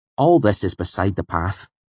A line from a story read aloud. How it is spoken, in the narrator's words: Willem said firmly